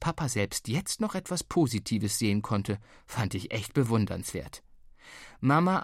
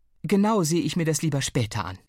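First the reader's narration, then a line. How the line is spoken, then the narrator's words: Tired. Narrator (German): sagte sie müde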